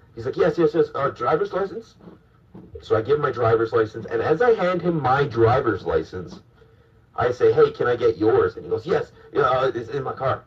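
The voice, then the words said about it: Terrible Chinese or East Indian accent. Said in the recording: “I'm doing this terrible, like, Chinese, like, East Indian accent”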